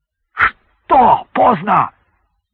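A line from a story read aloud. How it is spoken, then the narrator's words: Shouting. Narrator (Russian): закричал майор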